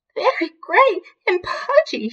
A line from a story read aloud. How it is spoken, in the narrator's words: she wailed